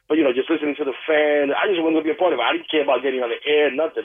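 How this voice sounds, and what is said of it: New York accent. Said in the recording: “too much of a New York accent”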